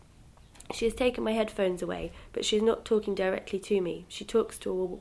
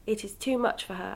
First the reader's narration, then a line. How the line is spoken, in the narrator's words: Alma says